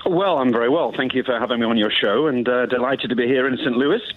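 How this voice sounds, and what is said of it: British Queen's English accent. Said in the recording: “you've got the greatest accent we've ever had on this station ... I apologize for my accent, but it's more Queen's English than nothing else”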